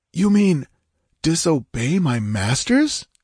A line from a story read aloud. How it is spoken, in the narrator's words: he gasped